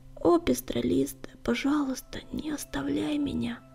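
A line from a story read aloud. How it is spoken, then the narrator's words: Whisper. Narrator (Russian): прошептал Огнегриф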